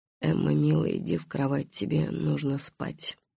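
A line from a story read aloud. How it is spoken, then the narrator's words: Flat expressionless mutter. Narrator (Russian): Голосом, безо всякого выражения, он пробормотал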